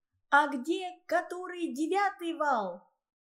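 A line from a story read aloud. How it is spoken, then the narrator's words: Shouting. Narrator (Russian): крикнула Ольга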